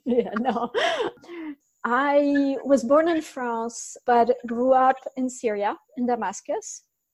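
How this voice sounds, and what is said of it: Foreign accent. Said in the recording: “I hear an accent, which I really like”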